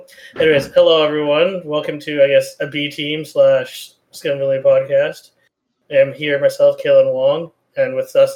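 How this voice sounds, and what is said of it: Ruined, wrecked-sounding voice. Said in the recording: “My voice is still ruined ... Is your voice wrecked”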